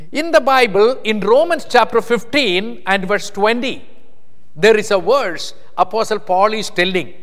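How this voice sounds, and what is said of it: Indian accent, deliberately slow speech. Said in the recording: “I am a very fast speaker in India. But here I am so careful because my accent is different. So I am trying to be very slow”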